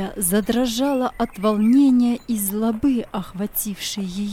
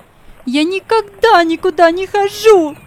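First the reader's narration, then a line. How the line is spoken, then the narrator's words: Frantic shouting. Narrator (Russian): закричала она вне себя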